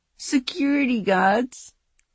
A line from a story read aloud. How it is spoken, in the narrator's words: Regan laughed hard